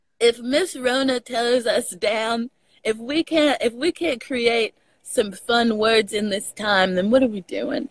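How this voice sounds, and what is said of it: Texas accent. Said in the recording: “Your Texas accent has come back so much”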